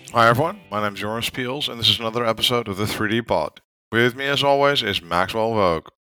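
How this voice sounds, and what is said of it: Hoarse, nearly lost voice. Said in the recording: “my voice is nearly gone”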